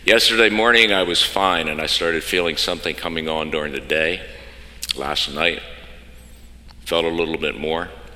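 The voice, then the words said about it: Rough, unusually deep voice from illness. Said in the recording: “You can hear my voice is not quite what it usually is, I think. ... I could stand up this morning and say, hello, I'm Johnny Cash.”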